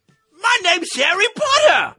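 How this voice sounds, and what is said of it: Attempted English accent. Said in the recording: “The best English accent I can do.”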